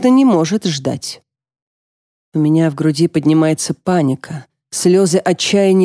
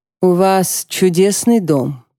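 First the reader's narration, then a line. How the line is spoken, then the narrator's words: Plain. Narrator (Russian): говорит инспектор Конати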